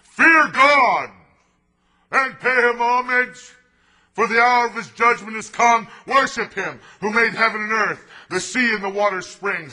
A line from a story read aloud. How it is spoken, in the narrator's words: And he cried out loud